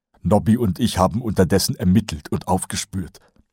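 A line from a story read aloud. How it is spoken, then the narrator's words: Plain. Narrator (German): sagte Kolon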